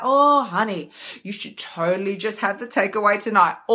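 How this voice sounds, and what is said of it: Sweet, syrupy coaxing voice. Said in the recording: “does that voice knock on your front door be all dripping in honey like”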